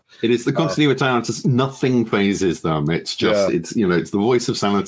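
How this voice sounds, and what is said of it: Usual voice. Nothing is said of it.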